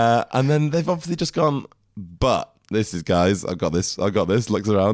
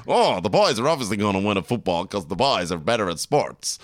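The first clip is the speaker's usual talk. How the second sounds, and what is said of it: Mock male TV-writer voice, odd accent. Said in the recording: “Do your Friends writing room voice ... I don't know what accent that is.”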